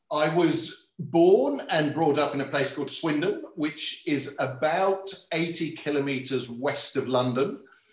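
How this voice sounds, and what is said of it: Non-Australian accent. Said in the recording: “your accent is not Australian. You can pick up that it's not Australian”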